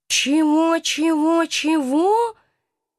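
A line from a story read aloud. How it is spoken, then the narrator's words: Hoarse astonished voice, from cage. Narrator (Russian): донесся из клетки хриплый от удивления голос профессора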